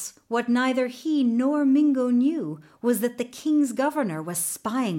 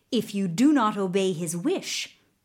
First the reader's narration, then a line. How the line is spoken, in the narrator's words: the governor added sternly